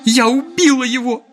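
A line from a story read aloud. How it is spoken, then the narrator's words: Sobbing. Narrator (Russian): зарыдала она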